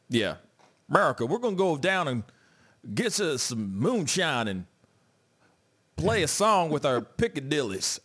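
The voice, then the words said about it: Stereotyped white hick American voice. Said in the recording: “your white person impersonation ... that white hick in you?”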